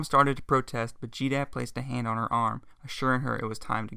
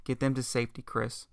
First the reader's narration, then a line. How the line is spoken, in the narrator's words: said in a low tone